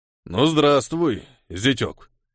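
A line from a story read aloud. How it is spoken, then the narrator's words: Resonant declaring voice. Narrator (Russian): звучным голосом заявил он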